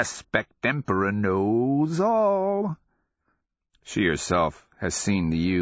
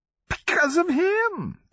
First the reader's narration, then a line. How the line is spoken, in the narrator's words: the madman cackles